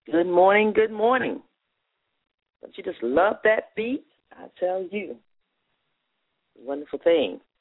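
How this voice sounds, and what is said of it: Hoarse, frog-in-throat voice. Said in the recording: “You can still hear it in my voice... get the they used to say the frog out of my throat, but still dealing with it... working out the kinks, as they can say, and in my throat”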